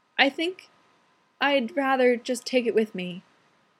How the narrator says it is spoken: Alan said faintly

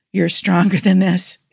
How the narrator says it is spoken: he said, panting

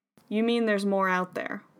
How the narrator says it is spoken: Polly said flatly

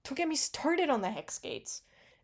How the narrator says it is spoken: Jace exclaimed indignantly

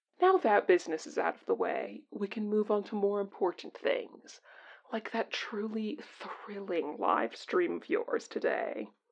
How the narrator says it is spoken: Tancoon declared once he was done choking

